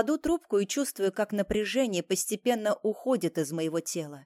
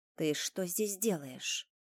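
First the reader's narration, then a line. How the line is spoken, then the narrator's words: Cold question. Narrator (Russian): спрашиваю я холодно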